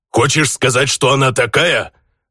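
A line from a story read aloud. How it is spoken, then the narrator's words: Orc's growl. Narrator (Russian): рыкнул на меня орк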